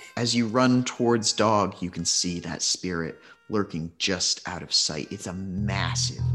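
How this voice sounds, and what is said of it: Usual voice. Nothing is said of it.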